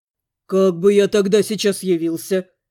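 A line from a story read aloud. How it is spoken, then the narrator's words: Wry snort. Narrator (Russian): хмыкнул Макс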